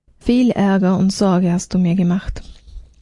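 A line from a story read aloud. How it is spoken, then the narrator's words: Maid speaking with sigh. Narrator (German): Die Magd ... sagte mit einem Seufzer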